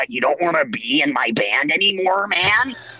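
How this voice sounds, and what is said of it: Imitates another person's voice. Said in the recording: “a very good impression of him”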